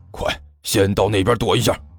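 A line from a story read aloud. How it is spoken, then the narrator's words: Low voice. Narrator (Chinese): 徐主任低声说道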